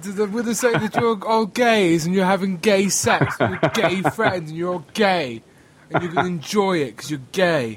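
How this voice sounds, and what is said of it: Put-on upper-class accent. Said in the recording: “I speak with an upper class accent.”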